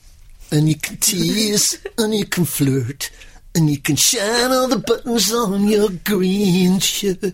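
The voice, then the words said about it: Sung impression of a singer. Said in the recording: “Elvis Costello's green shirt. ... Excellent impersonation.”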